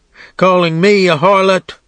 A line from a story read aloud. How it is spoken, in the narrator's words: screamed, wrenching at the men who held her